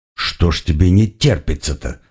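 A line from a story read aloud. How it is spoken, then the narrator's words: Muttered. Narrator (Russian): пробормотал я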